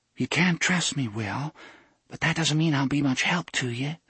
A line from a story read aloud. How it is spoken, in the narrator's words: said in a voice just a notch above a whisper